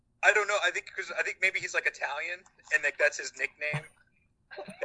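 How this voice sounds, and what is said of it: Usual voice. Nothing is said of it.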